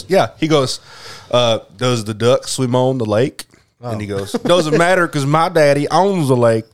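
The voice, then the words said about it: Put-on Southern accent. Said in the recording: “break out the accent... now it's straight to the Southern accent”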